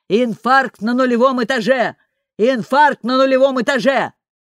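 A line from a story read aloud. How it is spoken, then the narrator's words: Yelling into a radio. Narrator (Russian): Дуэйн завопил в нее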